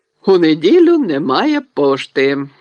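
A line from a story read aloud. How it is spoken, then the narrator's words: Cheerful reminder. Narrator (Ukrainian): радісно нагадав він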